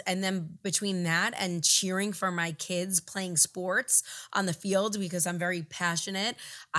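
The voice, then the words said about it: Hoarse, strained voice. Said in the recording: “lost my voice, ... It actually sounds a lot better today than it did yesterday ... I have a little cold ... I completely lost my voice.”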